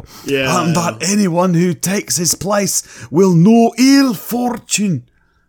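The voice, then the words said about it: Wandering put-on British Isles accent. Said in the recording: “That accent went on a tour of the British Isles.”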